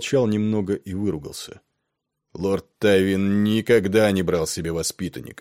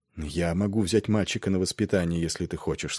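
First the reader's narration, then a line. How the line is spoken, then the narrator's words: Plain. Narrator (Russian): сказал Нед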